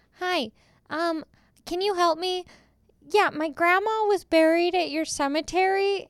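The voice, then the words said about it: Imitates own prank-call voice. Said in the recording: “Is that a good impression of myself?”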